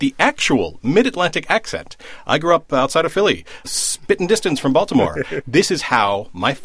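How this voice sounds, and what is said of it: Usual voice. Nothing is said of it.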